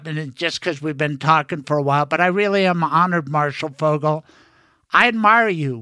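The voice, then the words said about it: Emotional, choked-up voice. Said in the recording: “I'm getting a little choked up,”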